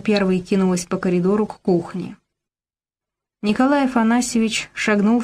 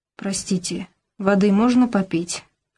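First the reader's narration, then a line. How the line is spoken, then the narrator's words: Weak-voiced question. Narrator (Russian): ослабевшим голосом спросил Николай Афанасьевич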